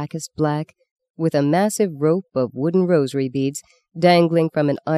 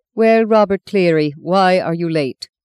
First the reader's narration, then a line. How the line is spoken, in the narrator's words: Sister Agatha barked in her dry, once Irish voice